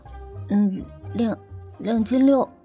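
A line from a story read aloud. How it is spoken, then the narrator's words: Girl's quiet voice. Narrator (Chinese): 其中一个女生小声说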